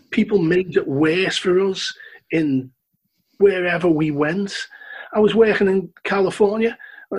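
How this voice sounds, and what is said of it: Liverpool accent. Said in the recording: “I love your accent. Where you from, Liverpool?”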